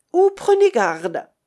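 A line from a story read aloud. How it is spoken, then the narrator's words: Exclaiming warning. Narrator (French): s'écria le révérend Hugh Hunter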